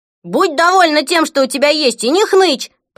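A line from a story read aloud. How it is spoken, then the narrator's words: Shouted. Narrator (Russian): прокричал Фред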